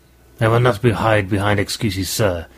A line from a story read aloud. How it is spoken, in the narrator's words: he snarled